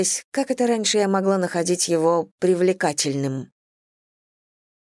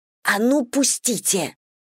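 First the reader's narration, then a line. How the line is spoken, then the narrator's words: Hissed. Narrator (Russian): прошипела я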